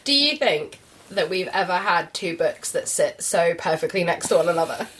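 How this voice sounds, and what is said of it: Congested, sniffly, slightly croaky voice. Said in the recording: “you're a little bit sniffly ... I might sound a little bit bunged up. I can go a bit croaky as well”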